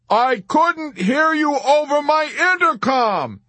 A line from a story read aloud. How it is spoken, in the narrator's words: Yossarian bellowed in mounting helplessness